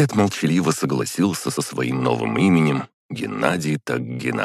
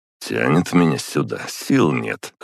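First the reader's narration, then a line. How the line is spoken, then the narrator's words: Wry snort. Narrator (Russian): хмыкнул я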